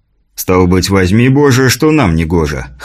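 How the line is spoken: Wry grunt. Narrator (Russian): хмыкнул князь

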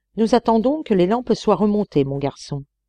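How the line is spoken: Plain. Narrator (French): répondit Sir W

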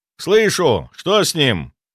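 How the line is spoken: Shout. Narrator (Russian): выкрикнул я

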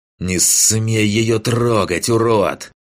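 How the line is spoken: Hissing. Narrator (Russian): прошипел маг

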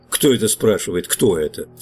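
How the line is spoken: Plain. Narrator (Russian): сказал я

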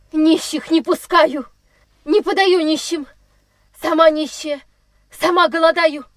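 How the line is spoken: Shouted. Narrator (Russian): Закричала она

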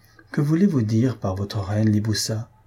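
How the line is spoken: Plain question. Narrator (French): lui demanda-t-elle

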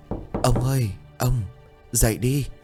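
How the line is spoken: Frightened voice. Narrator (Vietnamese): Bà bắt đầu sợ hãi

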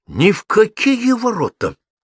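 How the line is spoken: Indignant announcement. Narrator (Russian): возмущенно объявил

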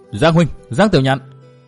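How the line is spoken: Loud call. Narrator (Vietnamese): có người cao giọng gọi

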